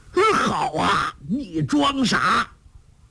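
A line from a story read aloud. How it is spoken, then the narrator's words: Frightened shout. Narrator (Chinese): 梁子翁又惊又恐，叫道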